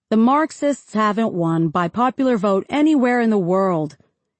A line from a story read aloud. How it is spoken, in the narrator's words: his confrères replied